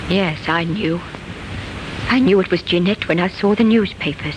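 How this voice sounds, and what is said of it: Flat, lifeless, bitter woman's voice. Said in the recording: “a thin, bitter woman answers their questions in a strangely lifeless voice”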